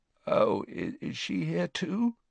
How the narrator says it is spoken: Harry croaked

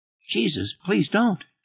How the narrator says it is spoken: Extremely said in a very tiny voice

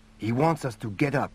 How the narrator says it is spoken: Ballon whispered

